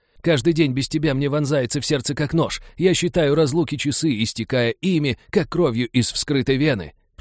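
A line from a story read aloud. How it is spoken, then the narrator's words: Loudspeaker wailing. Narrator (Russian): продолжал вопить динамик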